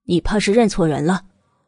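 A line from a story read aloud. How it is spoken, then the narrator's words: Deliberately gruff voice. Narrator (Chinese): 慕容子言自己也着实惊了一下，刻意的粗声道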